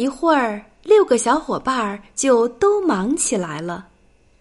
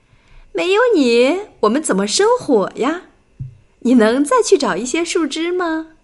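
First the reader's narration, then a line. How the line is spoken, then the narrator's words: Smiling. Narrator (Chinese): 麦克斯微笑着说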